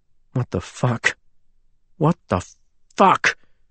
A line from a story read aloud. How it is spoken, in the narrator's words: muttered